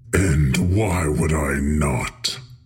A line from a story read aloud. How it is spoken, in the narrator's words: The Harbinger rasped